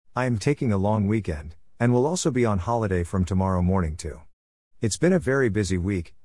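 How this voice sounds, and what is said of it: Strained, tired-sounding voice. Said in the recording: “my voice is struggling this morning”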